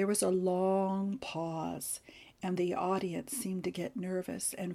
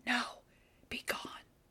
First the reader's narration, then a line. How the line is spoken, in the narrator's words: Lessing whispered to Wallace